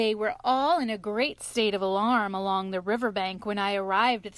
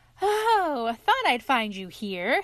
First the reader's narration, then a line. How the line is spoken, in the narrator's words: said the otter cheerfully